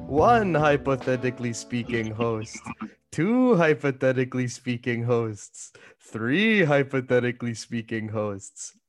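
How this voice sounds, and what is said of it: Count von Count vampire voice impression. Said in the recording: “doing the voice ... That was the count from Sesame Street ... friendly Sesame Street vampire”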